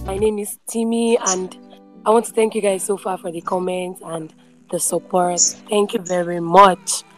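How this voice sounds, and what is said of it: Hoarse, worn-out voice. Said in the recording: “sorry I lost my voice. I was busy shouting in church, dancing ... manage my voice now”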